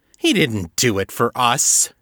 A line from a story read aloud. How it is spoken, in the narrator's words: Hal sneered